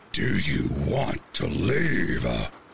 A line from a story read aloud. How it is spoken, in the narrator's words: he boomed